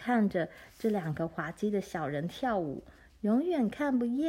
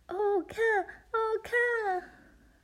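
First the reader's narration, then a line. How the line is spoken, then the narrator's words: Exclaiming. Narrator (Chinese): 格丽丝叫起来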